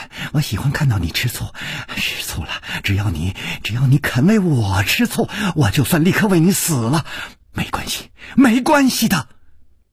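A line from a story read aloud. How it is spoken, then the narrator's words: Soft and tender. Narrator (Chinese): 宫南燕柔声说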